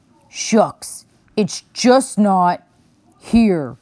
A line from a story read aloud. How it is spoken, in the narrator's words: he grumbled